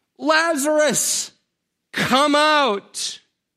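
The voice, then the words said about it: Loud calling voice. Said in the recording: “calls out in a loud voice”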